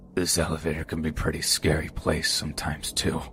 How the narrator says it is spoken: I said in a very gargly low voice

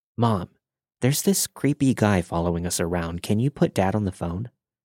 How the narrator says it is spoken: I whispered

